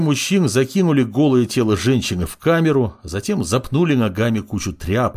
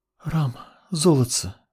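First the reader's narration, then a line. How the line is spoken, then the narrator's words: Woman whispering. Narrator (Russian): прошептала женщина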